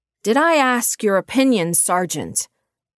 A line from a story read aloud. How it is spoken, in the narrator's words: Mary shouted through the headset